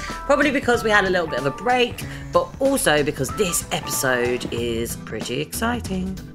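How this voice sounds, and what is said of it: Excited, upbeat voice. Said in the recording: “You can hear in my voice, I'm pretty excited about this.”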